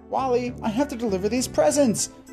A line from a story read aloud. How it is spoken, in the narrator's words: Zuma yelped